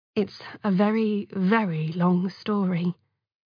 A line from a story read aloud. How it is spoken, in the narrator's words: Jacob said gently